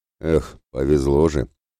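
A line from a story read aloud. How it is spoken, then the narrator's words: Disappointed sigh. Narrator (Russian): разочарованно вздохнул Ратибор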